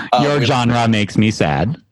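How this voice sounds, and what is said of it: Imitates a bot character's voice. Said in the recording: “that's what genre bot says. That's my genre bot impression.”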